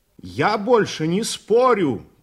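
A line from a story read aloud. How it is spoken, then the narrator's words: Shout. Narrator (Russian): крикнул Никитин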